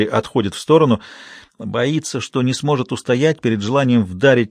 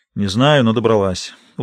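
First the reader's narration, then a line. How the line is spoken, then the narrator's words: Tired reply. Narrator (Russian): устало отвечает Генри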